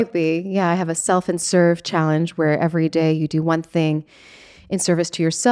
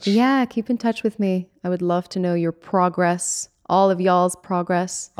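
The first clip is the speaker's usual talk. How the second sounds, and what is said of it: Put-on Texan twang. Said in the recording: “I was giving my little Texan twang.”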